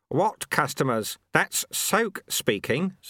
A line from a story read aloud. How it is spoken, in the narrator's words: said Lutze